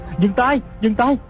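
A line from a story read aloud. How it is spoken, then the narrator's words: Shouting. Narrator (Vietnamese): Hư trúc la lên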